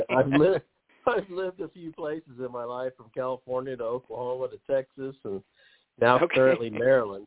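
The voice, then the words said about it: North Texas accent. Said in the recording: “describes you as having a North Texas accent”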